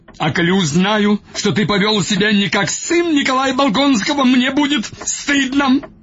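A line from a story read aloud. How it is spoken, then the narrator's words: Shrieking. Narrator (Russian): Взвизгнул он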